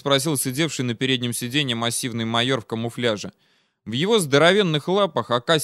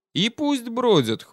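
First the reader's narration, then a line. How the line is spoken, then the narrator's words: Big man's snort. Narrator (Russian): хмыкнул здоровяк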